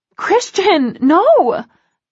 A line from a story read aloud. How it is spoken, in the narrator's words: I gasp in panic